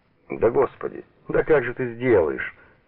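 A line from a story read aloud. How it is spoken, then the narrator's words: Burst out laughing. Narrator (Russian): расхохоталась Лиза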